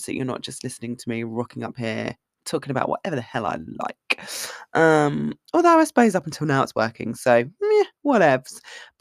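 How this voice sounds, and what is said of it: Strained, failing voice. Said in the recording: “My voice is failing. I feel like it's becoming more difficult to breathe.”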